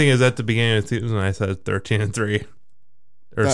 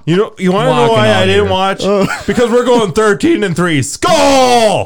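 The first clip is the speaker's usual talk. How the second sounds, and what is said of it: Screaming. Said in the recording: “Stop screaming!”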